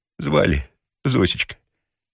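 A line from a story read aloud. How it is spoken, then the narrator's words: Joyful whispered question. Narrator (Russian): радостно шепотом спросил Ежевикин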